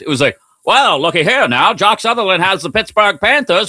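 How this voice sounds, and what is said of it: Old-timey radio announcer voice. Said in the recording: “Old timey radio voice.”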